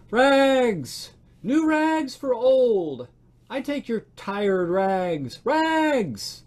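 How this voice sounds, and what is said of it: Clear tenor calling voice. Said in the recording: “calling in a clear tenor voice”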